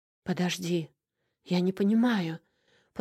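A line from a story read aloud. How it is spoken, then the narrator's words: Hoarse. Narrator (Russian): прохрипела я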